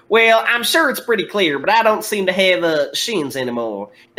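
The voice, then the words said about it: Exaggerated Southern US accent. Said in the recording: “the most fucking southern”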